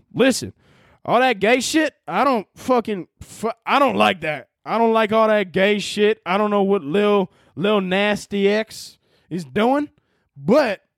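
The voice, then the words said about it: Put-on Southern US accent. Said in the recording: “my good Southern accent”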